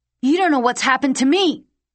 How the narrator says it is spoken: he cried

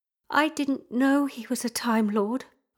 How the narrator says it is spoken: I said quietly

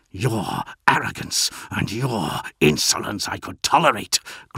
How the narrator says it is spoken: growled Bel Ashered

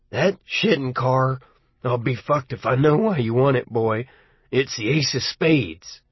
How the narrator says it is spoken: he sort of growled

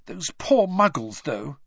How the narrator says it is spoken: said Hermione, nervously

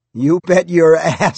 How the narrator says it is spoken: Scott said, laughing

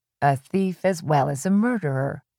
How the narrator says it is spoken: Little Driver said in his droning dead voice

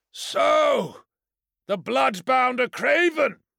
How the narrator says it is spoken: bellowed like a clarion horn

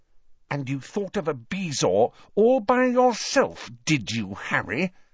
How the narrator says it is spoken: she asked through gritted teeth

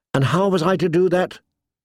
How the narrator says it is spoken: John said sharply

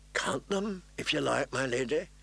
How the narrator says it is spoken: Renly said quietly

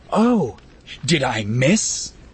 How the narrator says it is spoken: Annalene snarled

